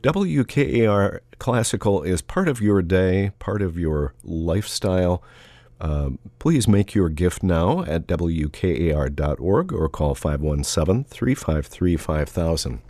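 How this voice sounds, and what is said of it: Voice altered by a cold. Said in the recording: “I think I'm coming down with a cold... if my voice sounds a little different, that is the reason”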